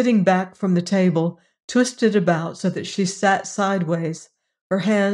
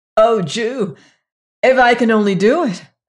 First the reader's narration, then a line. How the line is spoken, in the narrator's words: burst from Margaret with a little childish gasp